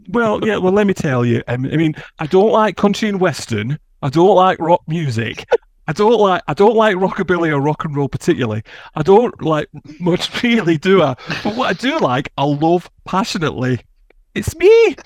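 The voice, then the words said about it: Put-on Yorkshire-Lancashire northern English accent. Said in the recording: “I don't know what accent that's supposed to be. It's kind of Yorkshire. ... That weren't too bad. No, you did all right. ... I think you sounded a bit Lancashire, Yorkshire yeah. crossover then.”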